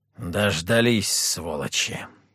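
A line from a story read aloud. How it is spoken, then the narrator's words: Angry growl. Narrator (Russian): рыкнул Петр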